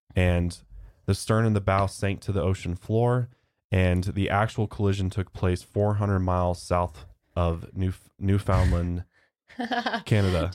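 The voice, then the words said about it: American accent. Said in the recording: “I'm so American. Got such an American accent.”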